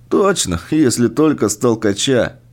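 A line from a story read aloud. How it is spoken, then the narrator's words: Giggling. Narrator (Russian): хихикнул Андрей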